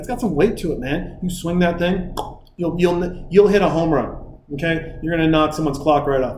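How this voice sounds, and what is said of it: Fast, loud, hyped-up speech. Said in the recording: “I'm talking so fast and maybe a little bit loud”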